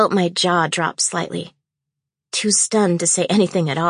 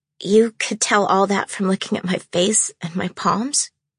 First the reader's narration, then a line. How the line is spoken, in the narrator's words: It took a few seconds before I was finally able to croak out